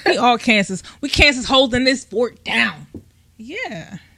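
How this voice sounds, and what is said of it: Put-on West Coast rapper accent. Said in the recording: “What accent was that? Where were you at? ... Was that country? ... Nah, you kind of sounded like you was Ice Cube or somebody. ... Taking it to the West Coast.”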